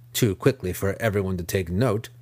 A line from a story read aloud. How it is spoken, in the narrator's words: Nalfain said